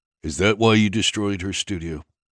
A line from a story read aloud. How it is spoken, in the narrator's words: Trace asked, his voice still remarkably calm